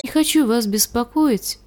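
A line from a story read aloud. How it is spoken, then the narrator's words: Timid. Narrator (Russian): сказала робко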